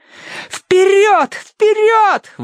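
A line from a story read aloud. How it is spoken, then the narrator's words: Screaming over the din. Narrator (Russian): вопила Минкс ему в ухо, чтобы он расслышал ее сквозь грохот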